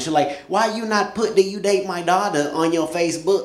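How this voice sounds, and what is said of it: Put-on Asian accent. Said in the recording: “As you can tell by the accent, my wife is Asian”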